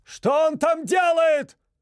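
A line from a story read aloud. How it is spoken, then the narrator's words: Shout from another room. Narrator (Russian): выкрикнул из спальни отец семейства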